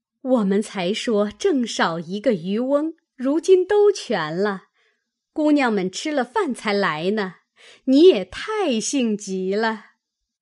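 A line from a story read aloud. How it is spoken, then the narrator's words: Group laughing. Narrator (Chinese): 众丫鬟婆子都笑道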